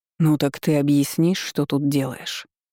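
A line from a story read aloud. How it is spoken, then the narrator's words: Growled. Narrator (Russian): прорычал он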